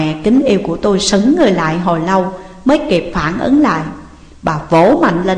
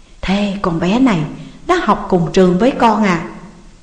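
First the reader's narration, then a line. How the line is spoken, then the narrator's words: Mother's sudden very low whisper. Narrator (Vietnamese): Mẹ bỗng nhiên hạ giọng xuống cực nhỏ, hỏi tôi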